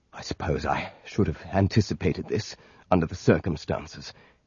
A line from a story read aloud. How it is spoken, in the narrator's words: muttered